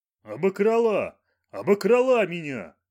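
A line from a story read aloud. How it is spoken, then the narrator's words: Shouting. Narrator (Russian): кричал он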